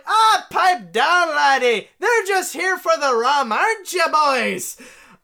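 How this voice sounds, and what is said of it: Put-on Irish accent. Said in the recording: “I don't know why I gave her an Irish accent.”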